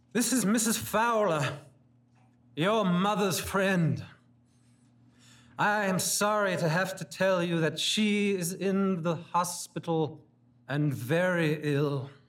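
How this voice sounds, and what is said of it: Loud declamatory voice. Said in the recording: “in her most declamatory voice.”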